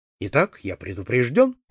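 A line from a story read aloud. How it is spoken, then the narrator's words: Cheerful. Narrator (Russian): весело сказал я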